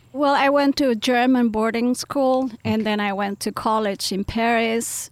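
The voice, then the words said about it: Slight mixed foreign accent. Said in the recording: “I speak with a little bit of an accent because I mix them all”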